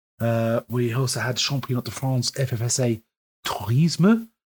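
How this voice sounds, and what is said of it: Poor French accent. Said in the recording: “My French accent, absolutely appalling.”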